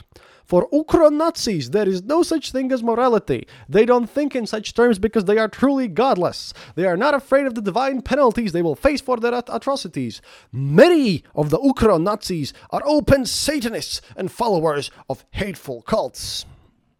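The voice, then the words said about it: Funny put-on accent. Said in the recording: “the funny accent”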